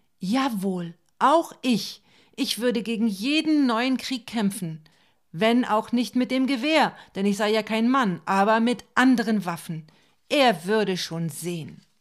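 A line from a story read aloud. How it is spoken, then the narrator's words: Call. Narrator (German): Ich rief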